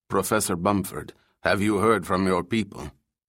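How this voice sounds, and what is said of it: Whispered thick Arabic accent. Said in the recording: “whispered in a thick, faintly Arabic accent”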